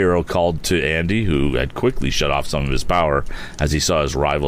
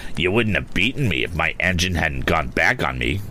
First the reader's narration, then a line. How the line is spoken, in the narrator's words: grumbled Andy, chagrin showing on his face